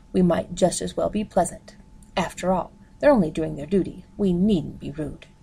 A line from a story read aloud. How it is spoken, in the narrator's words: she said firmly